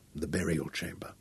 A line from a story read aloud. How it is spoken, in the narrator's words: Royan murmured with awe